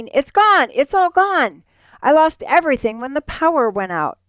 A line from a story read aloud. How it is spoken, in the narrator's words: Satan frantically, screaming